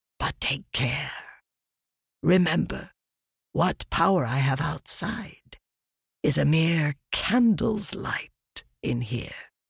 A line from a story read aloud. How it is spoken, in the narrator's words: Leshwe whispered